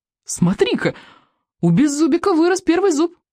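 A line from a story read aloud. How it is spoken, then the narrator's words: Exclaiming fish child. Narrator (Russian): воскликнул рыбьенок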